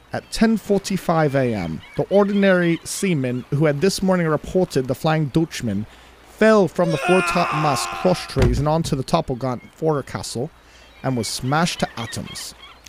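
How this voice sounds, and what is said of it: Weak put-on British accent. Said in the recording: “1 out of 10 on my British accent. Being that I've never been there as well, so this is just from movies”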